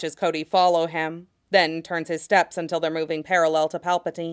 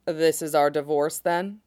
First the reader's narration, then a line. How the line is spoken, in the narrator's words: asks dryly, retreating